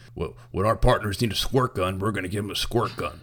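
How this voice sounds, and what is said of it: Imitates another person's voice. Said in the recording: “my Alex Jones voice is just my impression for everyone now. ... FDR impression?”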